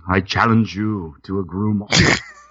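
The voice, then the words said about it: Put-on old-timey medieval-style accent. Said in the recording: “First of all, what are we in medieval times? ... I don't know what that accent was”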